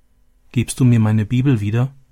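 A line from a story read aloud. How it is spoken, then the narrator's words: Plain question. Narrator (German): fragte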